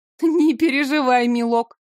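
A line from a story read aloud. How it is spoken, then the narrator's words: Giggling. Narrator (Russian): хихикнула я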